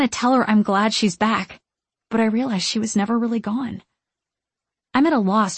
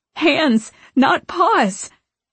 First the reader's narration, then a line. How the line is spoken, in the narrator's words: squealing